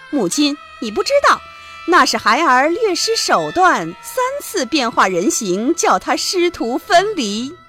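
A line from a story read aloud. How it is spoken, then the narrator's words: Gleeful laughter. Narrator (Chinese): 白骨精哈哈大笑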